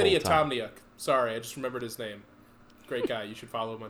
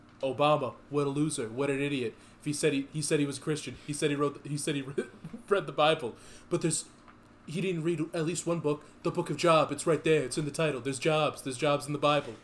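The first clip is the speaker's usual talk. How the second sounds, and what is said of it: Impression of a politician's voice. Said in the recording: “who does a great Trump impression.”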